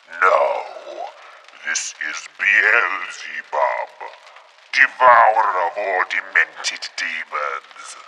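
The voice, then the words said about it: Silly put-on demon voice. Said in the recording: “putting on a silly voice ... You do sound a bit like my mother”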